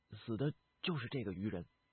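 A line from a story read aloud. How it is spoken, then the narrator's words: Low voice. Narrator (Chinese): 孙图低声的道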